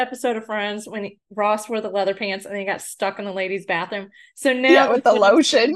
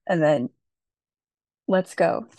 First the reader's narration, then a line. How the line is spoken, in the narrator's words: Chase said in a breathy voice